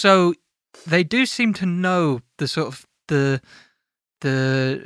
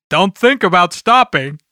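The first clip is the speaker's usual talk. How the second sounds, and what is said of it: Good imitation of another person's voice. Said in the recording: “That's quite a good impression.”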